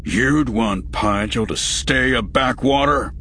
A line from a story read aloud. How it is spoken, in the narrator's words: As hotly as Rael spoke